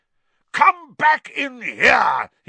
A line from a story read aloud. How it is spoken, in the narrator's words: bellowed